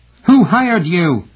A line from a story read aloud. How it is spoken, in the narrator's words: shouted, really frightened